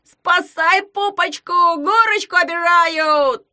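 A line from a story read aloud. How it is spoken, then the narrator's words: Yelling. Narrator (Russian): завопил Ягун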